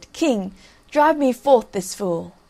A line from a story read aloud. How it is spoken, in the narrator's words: Iseult blushed and said